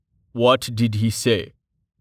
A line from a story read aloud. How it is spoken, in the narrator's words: Torhart rumbled